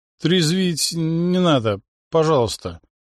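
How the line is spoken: Sleepy mumble. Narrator (Russian): сонно пробормотал он

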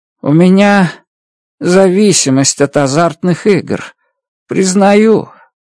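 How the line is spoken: Sad. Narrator (Russian): грустно произнес Реддл

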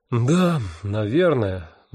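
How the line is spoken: Sighing. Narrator (Russian): вздохнул я

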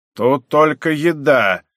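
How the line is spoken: Stern, buzzing undertone. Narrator (Russian): сказал строго второй спонсор, и в голосе его я услышал фон, жужжание

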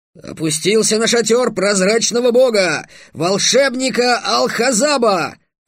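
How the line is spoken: Barked. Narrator (Russian): рявкнул Гавар

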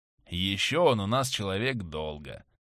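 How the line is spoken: Indifferent voice. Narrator (Russian): продолжал он равнодушным голосом

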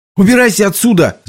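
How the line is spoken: Shouting. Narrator (Russian): закричал Билли

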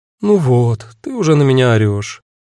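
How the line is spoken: Resigned sigh. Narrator (Russian): обреченно вздохнула Агата

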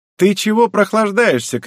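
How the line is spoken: Shouted. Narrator (Russian): крикнул лысый

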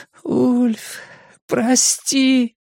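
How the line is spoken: Moaning. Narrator (Russian): простонала она

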